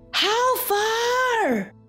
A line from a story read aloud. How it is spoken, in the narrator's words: said Grey Brother, panting and snapping